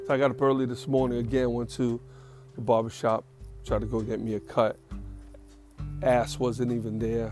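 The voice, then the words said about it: Tired-sounding voice. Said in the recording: “You can hear it in my voice. I am tired. I'm not sick. ... I'm just tired, man. I'm just really tired.”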